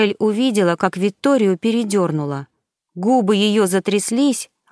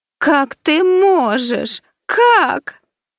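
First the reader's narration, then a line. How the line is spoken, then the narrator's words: Loud sobbing. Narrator (Russian): громко зарыдала Ди Кастеллано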